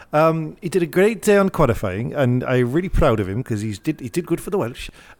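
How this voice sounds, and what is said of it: Put-on Welsh accent, fairly good. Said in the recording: “that was actually a pretty decent accent... that's a pretty good accent... I went a bit Irish at the end”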